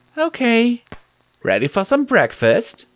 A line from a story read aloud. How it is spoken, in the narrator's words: Mom asked cheerfully